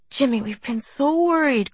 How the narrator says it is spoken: Corrine's mother cried

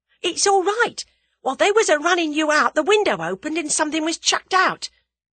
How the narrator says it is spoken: cried Tommy eagerly

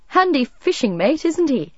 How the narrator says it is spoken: called a laughing voice behind her

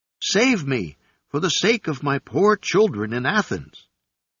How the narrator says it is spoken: the monkey cried out

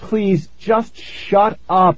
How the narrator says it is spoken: I cried

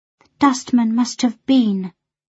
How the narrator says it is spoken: she said in a very quiet voice

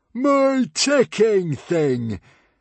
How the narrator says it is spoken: cried Norbert delightedly

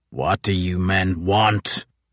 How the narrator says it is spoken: rasped Crozier

